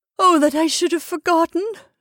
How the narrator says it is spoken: sobbed

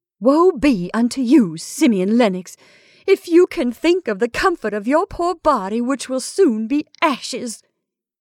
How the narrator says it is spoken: cried his sister-in-law

